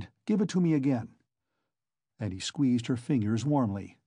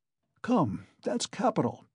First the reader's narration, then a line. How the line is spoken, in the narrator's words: he said to Sonia, looking brightly at her